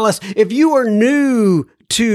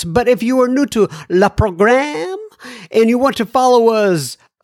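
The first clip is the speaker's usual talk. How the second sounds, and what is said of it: Weak put-on French accent. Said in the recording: “in a French kind of accent, but it's not really working”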